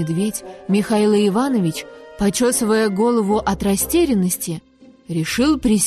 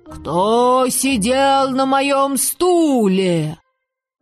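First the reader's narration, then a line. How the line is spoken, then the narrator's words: Softer growl, mother bear. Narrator (Russian): Мама-медведица Настасья Петровна зарычала, но не так громко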